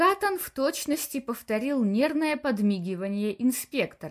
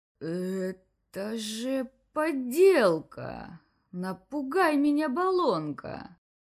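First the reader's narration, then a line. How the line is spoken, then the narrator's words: Slow, slurred. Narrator (Russian): Медленно, едва ворочая языком, повторил инспектор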